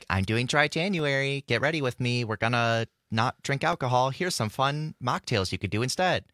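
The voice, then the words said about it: Mocking tone of voice. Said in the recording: “I don't know why I did a mocking tone of voice. I didn't mean to mock it”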